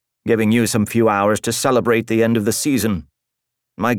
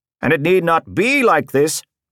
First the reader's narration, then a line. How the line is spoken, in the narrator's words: the centurion shouted